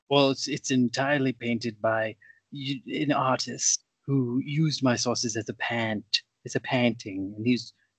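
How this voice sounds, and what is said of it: Thick British accent. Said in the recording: “I have a very thick British accent”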